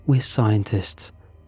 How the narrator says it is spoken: she said, her voice strained but resolute

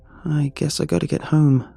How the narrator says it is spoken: sighed

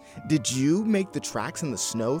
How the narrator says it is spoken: asked

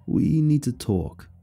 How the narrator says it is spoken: John said solemnly

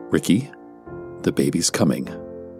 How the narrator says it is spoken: calmly stated

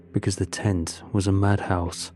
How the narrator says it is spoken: he said bitterly

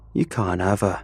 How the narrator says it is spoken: he slurred at me in his drunken state

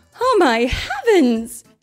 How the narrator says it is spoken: she cried

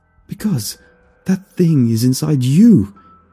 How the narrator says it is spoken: he cried

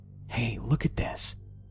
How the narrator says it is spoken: I whispered

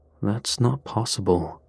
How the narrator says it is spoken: Carson muttered

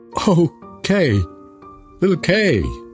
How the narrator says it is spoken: cried Gerda

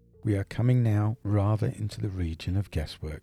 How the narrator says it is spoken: said Dr

